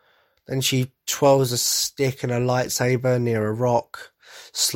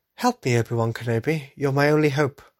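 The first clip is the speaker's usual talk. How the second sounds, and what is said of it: Bad Princess Leia impression, C-3PO-like. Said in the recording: “That was a terrible Princess Leia impression, by the way. I don't know why she went C-3PO-ish.”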